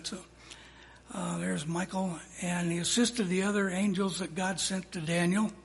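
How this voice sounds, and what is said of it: Strained, fading hoarse voice. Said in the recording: “my voice is going away tonight”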